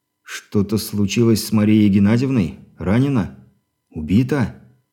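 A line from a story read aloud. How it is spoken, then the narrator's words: Dejected question. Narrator (Russian): Упавшим голосом поинтересовался он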